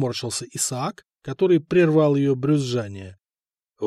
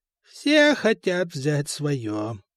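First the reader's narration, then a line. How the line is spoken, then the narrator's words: Creaky voice. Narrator (Russian): проскрипела Теодолинда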